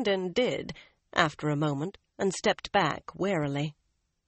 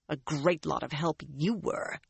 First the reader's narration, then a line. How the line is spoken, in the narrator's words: she growled